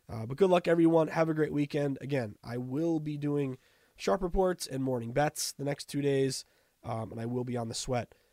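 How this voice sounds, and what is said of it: Rough, unwell-sounding voice. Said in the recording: “Hopefully, my voice is a little better, so don't sound terrible tomorrow.”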